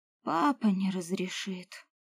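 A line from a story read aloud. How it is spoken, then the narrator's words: Bitter sigh. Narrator (Russian): горько вздохнула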